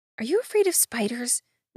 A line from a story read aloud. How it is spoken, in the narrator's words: Nix asked in just above a whisper